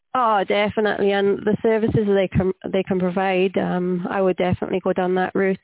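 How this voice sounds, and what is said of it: Welsh accent. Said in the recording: “accent. ... I'm Welsh.”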